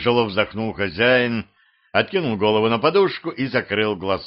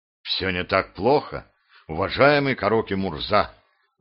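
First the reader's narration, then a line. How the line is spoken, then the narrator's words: Sighing. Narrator (Russian): вздохнул гость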